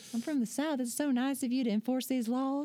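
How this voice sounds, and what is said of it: Put-on Southern accent. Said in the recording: “I'll throw him an accent if I have to. ... he's from Alabama too”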